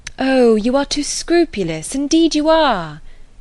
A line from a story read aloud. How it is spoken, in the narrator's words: cried Emma warmly